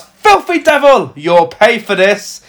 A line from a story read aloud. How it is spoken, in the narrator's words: Mother Superior she shouts